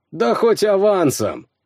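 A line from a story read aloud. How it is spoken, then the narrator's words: Short laugh. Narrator (Russian): хохотнул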